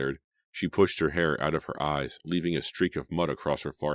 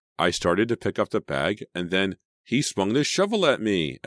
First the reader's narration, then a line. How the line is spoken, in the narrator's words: Emma cried